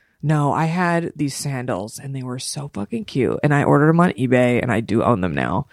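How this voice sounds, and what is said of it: Usual voice. Nothing is said of it.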